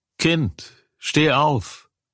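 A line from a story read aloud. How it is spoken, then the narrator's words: Calling out. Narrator (German): rief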